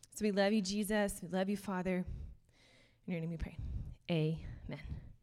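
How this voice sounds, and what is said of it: Out of breath, slightly panting voice. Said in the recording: “If I seem a little out of breath ... I am pretty much perpetually out of breath ... if it sounds like I just ran a small race”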